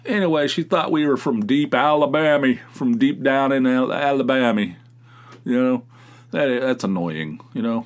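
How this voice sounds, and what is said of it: Slight West Virginia accent. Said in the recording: “I grew up in West Virginia. I have a slight accent. ... I talk like I'm from West Virginia.”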